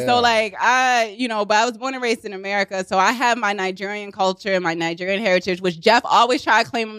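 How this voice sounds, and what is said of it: Baltimore accent. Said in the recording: “my Baltimore accent is coming out”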